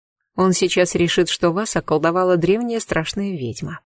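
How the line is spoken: Quiet, close, intimate. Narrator (Russian): тихо сказала я, наклонившись к Тару

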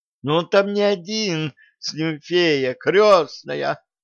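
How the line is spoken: Groaning manager. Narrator (Russian): простонал управляющий

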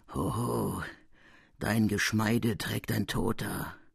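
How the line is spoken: Murmured into ears. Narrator (German): eine Stimme raunte mir in die Ohren

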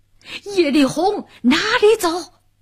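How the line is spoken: Thunderous shout. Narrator (Chinese): 一个红脸大汉，响起炸雷般一声呐喊

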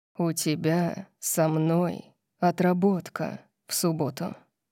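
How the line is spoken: Deadly purr in the ear. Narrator (Russian): сказал Орион мне на ухо, голосом убийственного мурлыканья

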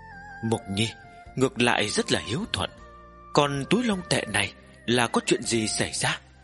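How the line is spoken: Moved, trembling old woman laughing. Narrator (Vietnamese): Tư Bà Bà lộ ra vẻ cảm động, run rẩy cười nói

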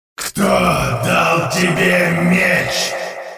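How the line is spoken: Growled. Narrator (Russian): прорычал Хумензы

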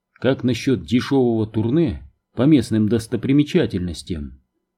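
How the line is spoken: Plain question. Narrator (Russian): спросил ее спутник

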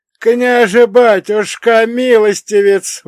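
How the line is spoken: Tearful wail. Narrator (Russian): взвыл он, и в его голосе были настоящие слезы

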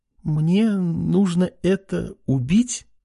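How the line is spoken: Uncertain, fearful question. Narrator (Russian): неуверенно и даже со страхом спросила женщина

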